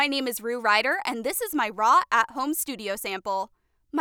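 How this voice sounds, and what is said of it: Usual voice. Nothing is said of it.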